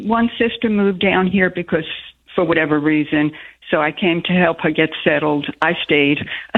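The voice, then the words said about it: Charming foreign accent. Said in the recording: “your accent very charming. Just adorable.”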